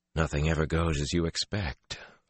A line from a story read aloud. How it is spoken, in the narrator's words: Luz Theron murmured